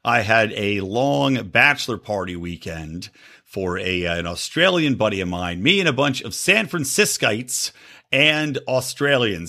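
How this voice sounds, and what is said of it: Slightly scratchy voice. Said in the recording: “you might be able to tell my voice is a little bit scratchy still”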